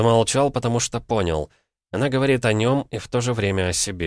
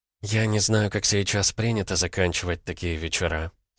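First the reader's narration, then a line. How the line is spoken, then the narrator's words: Quiet. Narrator (Russian): сказала Лера тихо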